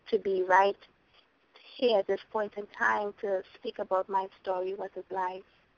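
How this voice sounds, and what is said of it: Trinidadian accent with a lilt. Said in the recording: “we can tell that you're from Trinidad by the lovely lilt in your voice, which I'm sure all the listeners can hear.”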